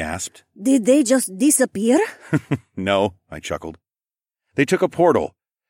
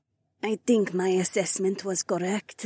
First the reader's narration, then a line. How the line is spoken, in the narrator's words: she murmured with a sly smile